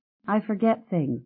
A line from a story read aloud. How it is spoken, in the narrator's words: Mom said